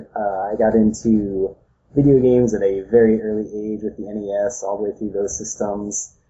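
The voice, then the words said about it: American accent. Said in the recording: “we have a different accent, one of the American variety”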